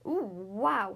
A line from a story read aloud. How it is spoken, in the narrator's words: gasped